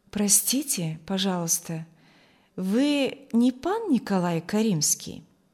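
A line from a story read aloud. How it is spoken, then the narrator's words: Melodious pleasant question. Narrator (Russian): спросил он мелодичным, приятным голосом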